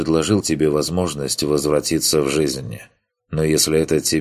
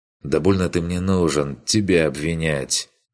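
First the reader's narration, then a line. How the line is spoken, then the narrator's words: Tired, dismissive. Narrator (Russian): Устало отмахнулся Курт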